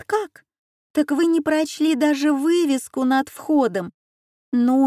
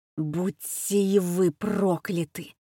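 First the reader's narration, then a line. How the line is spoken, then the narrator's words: Hoarse wheeze. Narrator (Russian): просипел он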